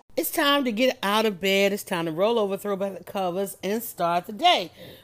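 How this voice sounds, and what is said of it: Congested, sick-sounding voice. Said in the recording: “I'm catching a little bit of chest cold ... I sound different”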